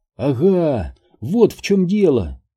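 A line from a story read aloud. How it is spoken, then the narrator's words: Exclaimed. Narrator (Russian): воскликнул Сайтримба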